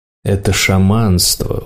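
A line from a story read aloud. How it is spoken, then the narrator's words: Weary reply. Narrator (Russian): устало отозвался его сосед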